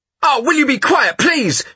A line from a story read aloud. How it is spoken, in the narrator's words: shouted Bruno, in irritation